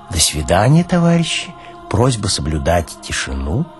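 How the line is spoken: Near-whisper, receding, gentle. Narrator (Russian): пожелав, удаляясь почти шепотом, как детям

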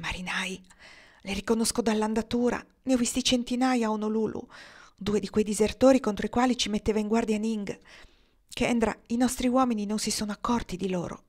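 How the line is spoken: Still whispering. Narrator (Italian): Sempre bisbigliando, Marnie aggiunse

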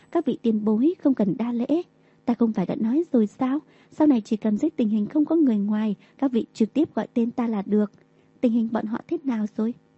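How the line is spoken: Smiling. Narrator (Vietnamese): Đường Tam mỉm cười

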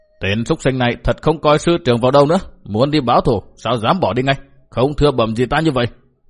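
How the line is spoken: Shouted scolding. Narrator (Vietnamese): Bao Đả Thắng quát bảo

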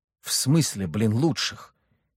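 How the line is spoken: Confused mutter. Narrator (Russian): в непонятках пробормотал Леха

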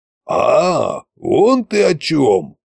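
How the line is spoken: Drawling. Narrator (Russian): протянул Кощей

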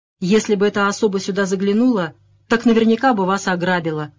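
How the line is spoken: Grumble. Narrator (Russian): проворчал Кеннеди

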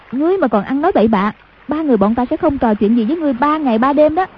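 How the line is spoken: Shouting. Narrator (Vietnamese): Hoàng Dung quát

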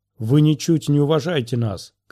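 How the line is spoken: Shouting worker. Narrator (Russian): кричал другой рабочий

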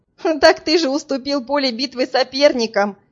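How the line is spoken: Laughing. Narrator (Russian): засмеялась

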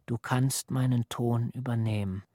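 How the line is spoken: Soft, careful sea murmur. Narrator (German): Vorsichtig und leise rauschte das Meer

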